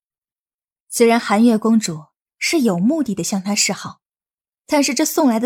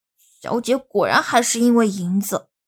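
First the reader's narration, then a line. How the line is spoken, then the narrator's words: Pouting mumble. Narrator (Chinese): 小环嘟着嘴，小声嘟囔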